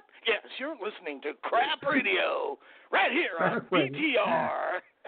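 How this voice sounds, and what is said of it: Exaggerated radio DJ voice. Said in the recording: “Do you have a radio voice?”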